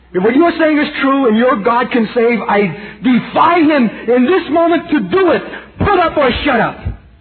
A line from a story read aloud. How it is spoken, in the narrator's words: cried out in the hearing of hundreds